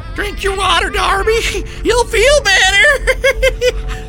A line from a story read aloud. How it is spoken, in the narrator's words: she cried loudly